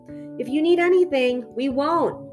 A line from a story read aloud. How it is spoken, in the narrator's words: the girl shouted